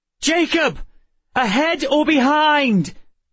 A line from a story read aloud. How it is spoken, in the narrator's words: Emma shouted in my ear